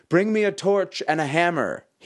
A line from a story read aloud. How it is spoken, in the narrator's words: he screamed